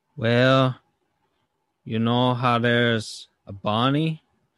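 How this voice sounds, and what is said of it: Imitates another person's voice. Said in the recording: “my Bad Bunny impression”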